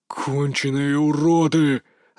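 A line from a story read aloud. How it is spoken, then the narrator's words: Growling. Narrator (Russian): рычал Валерий Наумович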